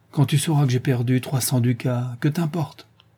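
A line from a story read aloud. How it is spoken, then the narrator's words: Stifled sigh. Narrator (French): un soupir étouffé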